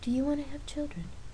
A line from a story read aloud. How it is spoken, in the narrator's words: Jamie asked quietly